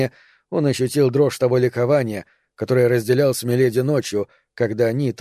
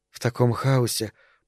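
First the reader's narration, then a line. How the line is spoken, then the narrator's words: Mutter. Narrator (Russian): пробормотала она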